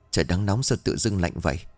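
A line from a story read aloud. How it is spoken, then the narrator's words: Muttering. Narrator (Vietnamese): Luyến lẩm bẩm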